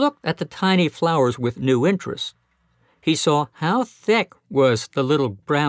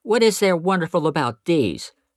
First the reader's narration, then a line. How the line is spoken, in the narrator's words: demanded Peter, a little sharply, for he felt a little put out that anyone should think he didn't see all there was to be seen